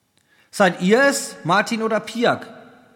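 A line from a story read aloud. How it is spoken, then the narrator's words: Called out. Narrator (German): rief der Mann, der ihm am nächsten stand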